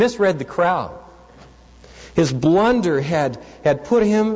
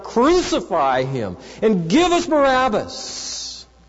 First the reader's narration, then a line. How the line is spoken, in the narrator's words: they began to shout